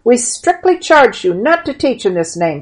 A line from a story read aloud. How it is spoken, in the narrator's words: said the high priest hotly